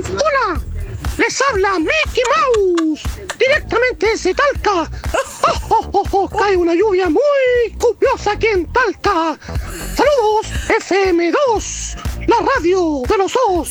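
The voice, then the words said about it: Mickey Mouse cartoon voice impression. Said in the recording (Spanish): “mándame tu mejor imitación de Mickey Mouse”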